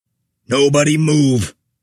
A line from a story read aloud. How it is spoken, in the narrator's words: Vessel bellowed more authoritatively